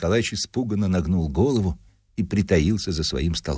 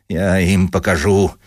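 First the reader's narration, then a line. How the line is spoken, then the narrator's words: Grumbling. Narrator (Russian): ворчал Дубинин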